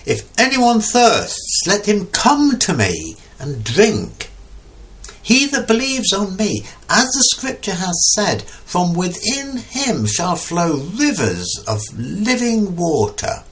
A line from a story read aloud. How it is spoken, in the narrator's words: Jesus stood and cried, saying